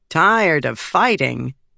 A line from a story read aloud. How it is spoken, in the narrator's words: Gaz said, chuckling